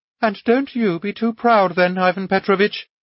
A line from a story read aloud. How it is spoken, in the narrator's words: added Anna Andreevna, laughing